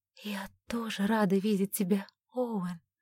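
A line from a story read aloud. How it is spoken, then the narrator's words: Sincere whisper. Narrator (Russian): прошептала она, нисколько не кривя душой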